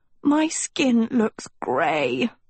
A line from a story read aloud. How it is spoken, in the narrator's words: Sophie croaked